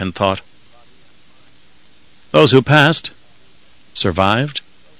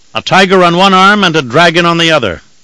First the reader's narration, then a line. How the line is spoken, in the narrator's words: Mord Kerr called out